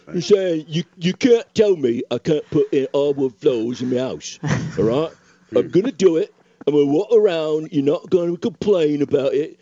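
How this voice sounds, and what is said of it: Put-on Cockney accent. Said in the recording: “I realize I'm now doing an accent from a completely different... ... Now we've gone to a Cockney sound. ... Different portion of across the pond.”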